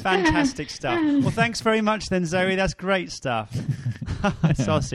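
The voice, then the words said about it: Sarcastic-sounding radio presenter voice. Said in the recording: “You've gone all sarcastic ... It's my radio voice.”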